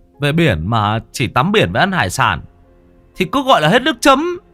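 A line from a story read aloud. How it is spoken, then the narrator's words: Bawled loudly. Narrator (Vietnamese): gào mồm lên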